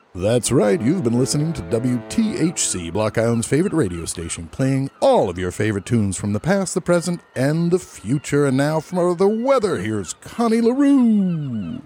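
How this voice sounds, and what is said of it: DJ-style radio announcer voice. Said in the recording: “You got a good radio voice. ... I could be a DJ, right?”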